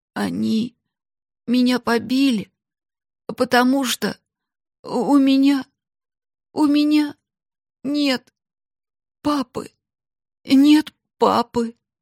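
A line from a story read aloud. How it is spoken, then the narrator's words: Tearful trembling child's voice. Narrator (Russian): Мальчик со слезами на глазах ответил дрожащим голосом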